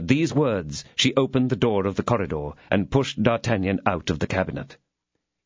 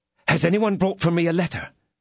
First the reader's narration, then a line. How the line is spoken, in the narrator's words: eagerly inquired D'Artagnan